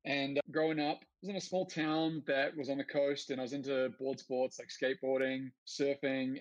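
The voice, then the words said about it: New Zealand accent. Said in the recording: “I grew up in New Zealand, so you guys probably already established I've got an accent.”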